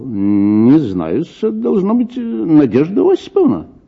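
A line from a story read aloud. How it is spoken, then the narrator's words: Confused muttering. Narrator (Russian): он растерянно пробормотал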